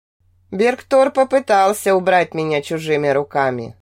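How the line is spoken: Muffled, distant voice. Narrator (Russian): глухо донеслось до меня

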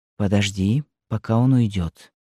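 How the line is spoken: Child whispering. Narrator (Russian): Девочка прошептала на ухо матери

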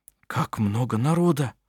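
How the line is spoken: Whisper. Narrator (Russian): прошептал

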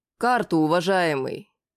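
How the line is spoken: Dry but diplomatic. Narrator (Russian): Сухо, но дипломатично произнес

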